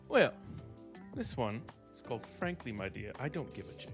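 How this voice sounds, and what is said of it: Put-on British accent. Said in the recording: “I don't know why I did it with a British accent.”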